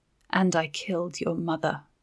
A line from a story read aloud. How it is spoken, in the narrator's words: she said softly, with no hint of cruelty